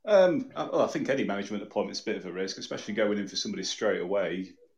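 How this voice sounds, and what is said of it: Northern English accent. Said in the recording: “I'm up this way if you couldn't tell by my accent.”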